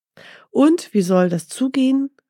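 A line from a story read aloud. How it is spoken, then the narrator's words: Exclaiming question. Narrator (German): rief Mustafa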